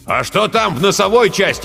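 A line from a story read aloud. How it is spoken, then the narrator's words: Shout. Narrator (Russian): крикнул Жирилло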